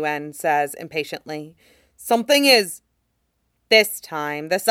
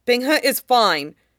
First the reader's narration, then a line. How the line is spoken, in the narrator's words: Shen Yuan says hastily